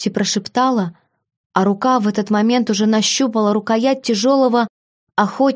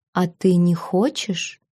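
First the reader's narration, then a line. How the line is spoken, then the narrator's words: Purring dragon. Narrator (Russian): Почти промурлыкал этот дракон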